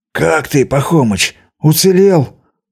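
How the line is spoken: Hoarse wheeze. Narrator (Russian): прохрипел я

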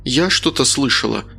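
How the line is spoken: Timid. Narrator (Russian): робко проговорила Лена

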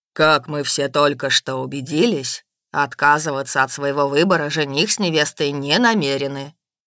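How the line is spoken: Solemn. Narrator (Russian): Грэм торжественно произнес

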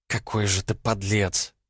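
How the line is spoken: Contemptuous, through gritted teeth. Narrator (Russian): презрительно процедила Алиса

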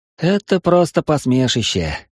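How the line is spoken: Old man's sigh. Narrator (Russian): вздохнул старый мастер

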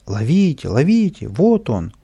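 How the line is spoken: Crowd shouting. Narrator (Russian): И все кричали

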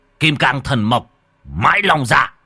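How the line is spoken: Shouted incantation. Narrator (Vietnamese): Nhà Tam nhà Tứ quát

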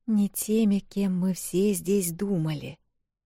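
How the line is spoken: Barely audible mutter. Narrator (Russian): пробормотала еле слышно Эл

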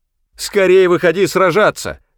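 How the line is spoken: Yelling. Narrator (Russian): вопил он

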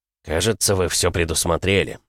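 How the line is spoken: Gloomy remark. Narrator (Russian): мрачно заметил Мортон

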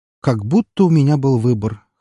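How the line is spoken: Muttered snort. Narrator (Russian): хмыкнул себе под нос

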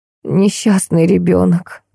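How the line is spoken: Moaning. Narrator (Russian): простонала Крылова-старшая

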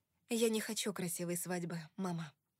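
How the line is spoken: Soft. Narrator (Russian): мягко сказала я

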